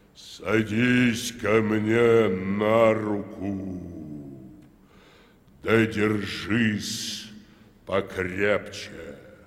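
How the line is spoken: Hollow tolling voice. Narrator (Russian): сказал глухим голосом, как погребальный колокол

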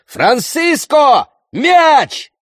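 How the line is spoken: Shout. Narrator (Russian): закричал

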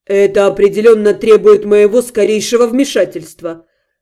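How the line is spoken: Grumbling. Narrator (Russian): проворчал Вашари

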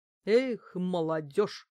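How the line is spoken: Muttering housekeeper. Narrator (Russian): буркнула домработница

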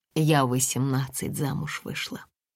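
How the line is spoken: Quiet speech. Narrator (Russian): тихо говорила Татьяна

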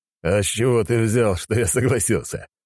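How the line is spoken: Chuckled. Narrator (Russian): хохотнул глава

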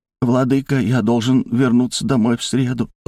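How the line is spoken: Timid speech. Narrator (Russian): робко проговорил

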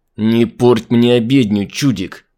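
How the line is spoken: Hissing through teeth. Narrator (Russian): Сквозь зубы прошипел Дэйв

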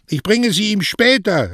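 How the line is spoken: Called back. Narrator (German): rief Mario zurück

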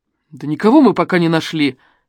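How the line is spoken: Angry admission. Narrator (Russian): сердито признался Афанасьев

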